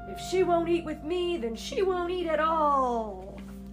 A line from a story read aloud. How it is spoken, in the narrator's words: the beast roared